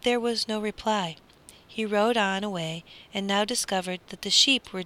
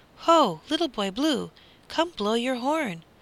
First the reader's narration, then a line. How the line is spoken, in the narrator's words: he cried